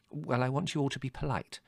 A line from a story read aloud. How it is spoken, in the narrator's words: said Mother firmly